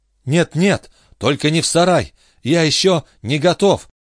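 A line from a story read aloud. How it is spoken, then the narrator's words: Bashful babbling. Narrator (Russian): залепетал Джо со стыдливой улыбкой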